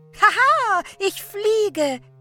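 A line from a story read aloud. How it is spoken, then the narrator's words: Laughing. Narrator (German): lachte sie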